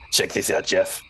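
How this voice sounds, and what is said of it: Character voice for Felix. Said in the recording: “my best Felix impression.”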